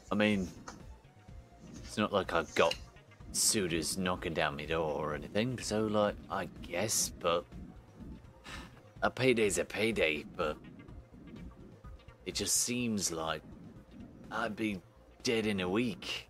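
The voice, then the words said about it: Speaks with a put-on accent. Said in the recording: “you're loving the accent”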